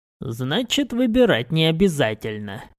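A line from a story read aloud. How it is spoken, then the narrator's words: Wry snort. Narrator (Russian): хмыкнул я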